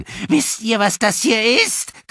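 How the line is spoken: Shrieking. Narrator (German): kreischte sie

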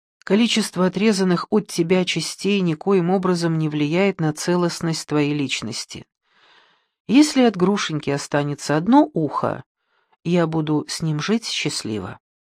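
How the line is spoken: Calm. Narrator (Russian): Муж спокойно выслушал мою сбивчивую речь и сказал

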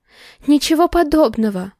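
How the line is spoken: Anxious woman's exclamation. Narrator (Russian): воскликнула, заламывая пальцы

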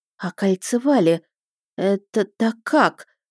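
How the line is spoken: Amazed mumble. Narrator (Russian): промямлила я, изумленно

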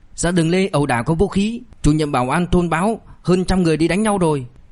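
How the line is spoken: Loud urgent shout. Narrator (Vietnamese): Người từ phòng trực chạy ra lớn tiếng hô

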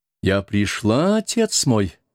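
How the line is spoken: Musical, clear voice. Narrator (Russian): произнесла она музыкальным и чистым голосом

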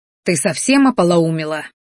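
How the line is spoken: Angry hushed hiss. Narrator (Russian): злобно зашипел, чтобы не нашлось лишних ушей

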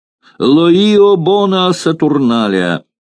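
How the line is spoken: Group shouting. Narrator (Russian): закричали все сотрапезники раба

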